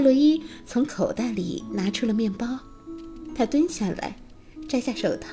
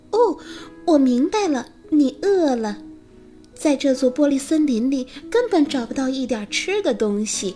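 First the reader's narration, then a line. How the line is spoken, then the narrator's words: Chirping bird voice. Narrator (Chinese): 小红喉雀啾啾的鸣叫，他说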